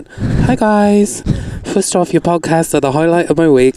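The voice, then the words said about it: Brief attempt at a put-on accent. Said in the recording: “Maybe I'll read it in an accent. ... I'm going to try it. ... I'm just kidding. I can't do it.”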